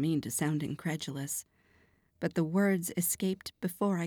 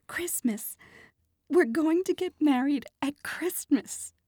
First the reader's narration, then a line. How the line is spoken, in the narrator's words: she blurted out